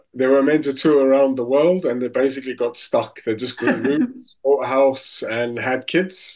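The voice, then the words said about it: South African accent. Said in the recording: “as you can hear, I'm obviously South African”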